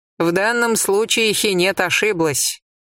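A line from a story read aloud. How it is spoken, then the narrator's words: Dry remark. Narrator (Russian): сухо заметила Иса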